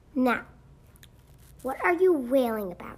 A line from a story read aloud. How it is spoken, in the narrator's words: demanded sharply